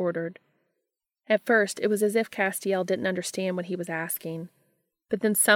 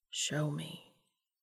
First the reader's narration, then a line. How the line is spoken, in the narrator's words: Dean repeated, lowering his voice to a whisper